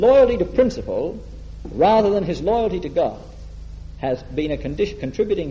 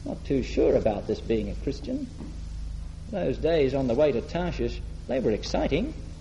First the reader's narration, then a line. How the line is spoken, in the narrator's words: looking a bit wistfully over my shoulder and saying